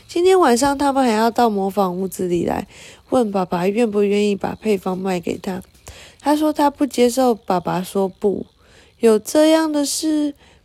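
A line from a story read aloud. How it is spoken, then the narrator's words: Softly. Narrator (Chinese): 雷亚轻声地说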